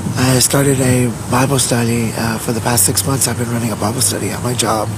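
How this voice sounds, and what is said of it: Hoarse, strained voice. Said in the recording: “forgive my voice. I'm losing my voice”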